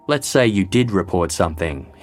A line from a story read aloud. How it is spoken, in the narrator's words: said